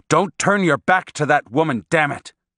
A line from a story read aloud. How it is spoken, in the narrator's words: said in a forceful voice